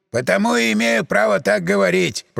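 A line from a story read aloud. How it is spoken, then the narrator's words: Grumbling mutter. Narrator (Russian): пробурчал Михалыч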